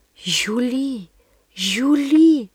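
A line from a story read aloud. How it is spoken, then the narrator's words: Horrified whisper. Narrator (Russian): прошептала в ужасе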